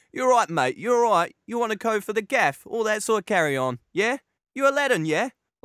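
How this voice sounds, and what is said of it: Put-on East London geezer accent. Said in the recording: “your typical East London geezer ... never do that accent ever again”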